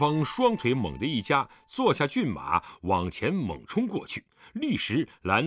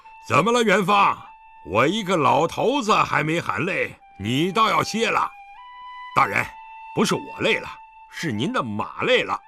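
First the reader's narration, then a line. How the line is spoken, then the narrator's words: Loud reply while galloping. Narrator (Chinese): 狄仁杰也边催马快跑，边高声回答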